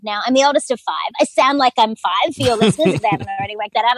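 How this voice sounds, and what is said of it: Australian accent. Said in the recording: “as an Australian, you can hear the accent, I'm sure”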